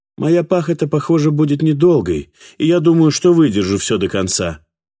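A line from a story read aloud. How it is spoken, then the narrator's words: Sharp reply. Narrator (Russian): ответил Мэриэт резко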